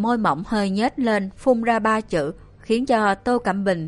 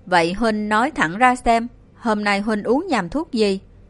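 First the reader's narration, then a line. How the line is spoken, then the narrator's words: Cold question. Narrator (Vietnamese): Tô Cẩm Bình lạnh lùng hỏi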